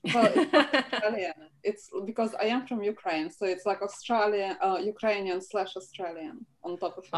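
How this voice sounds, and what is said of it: Australian accent with Ukrainian undertones. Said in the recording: “you have the best Australian accent ever ... so you have an Australian accent when you go home to Ukraine”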